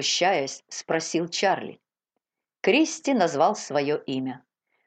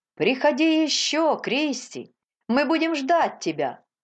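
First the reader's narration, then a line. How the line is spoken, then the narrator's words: Shouting group. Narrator (Russian): кричали они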